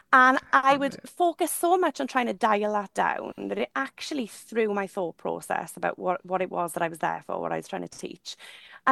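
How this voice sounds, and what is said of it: Thick broad Welsh accent. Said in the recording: “my thick, broad Welsh accent”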